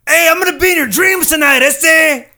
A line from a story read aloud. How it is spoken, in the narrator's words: when he's yelling at me, I go